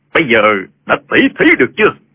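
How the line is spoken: Loud. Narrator (Vietnamese): Trương Vô Kỵ lớn tiếng nói

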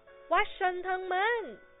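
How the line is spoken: Joyful exclamation. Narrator (Vietnamese): Holmes reo lên

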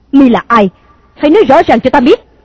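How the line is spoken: Angry loud shout. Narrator (Vietnamese): Công chúa giận dữ thét to

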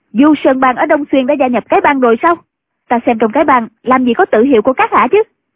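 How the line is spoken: Sudden shout. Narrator (Vietnamese): Ân Tố Tố bỗng quát lên

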